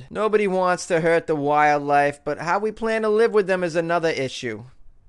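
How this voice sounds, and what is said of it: Put-on Boston accent. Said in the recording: “that's my Boston accent.”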